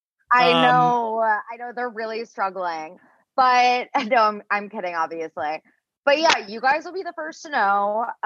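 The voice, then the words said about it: Shaky voice, close to tears. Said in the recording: “a little down this episode ... my voice is surprising. It's been very like shaky. I feel like I'm like on the verge of tears.”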